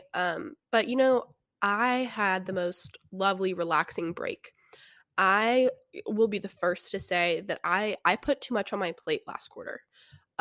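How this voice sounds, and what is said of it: Congested, stuffy-nosed voice. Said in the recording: “notice I sound a little different ... my nose is stuffed up. That's why I sound different.”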